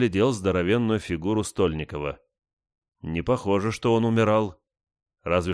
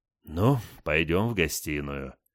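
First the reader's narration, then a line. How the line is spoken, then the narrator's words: Heavy sigh. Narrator (Russian): тяжело вздохнул я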